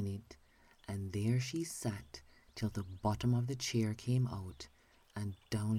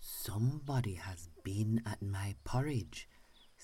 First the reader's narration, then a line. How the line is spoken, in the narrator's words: said the great huge bear in his great rough, gruff voice